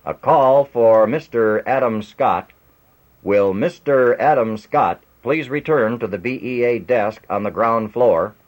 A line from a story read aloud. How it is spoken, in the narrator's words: Booming out of the public address system came